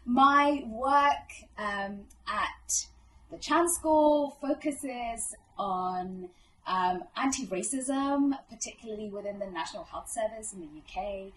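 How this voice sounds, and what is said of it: British English accent. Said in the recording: “Grew up in the UK since the age of 11. That's why I talk like this.”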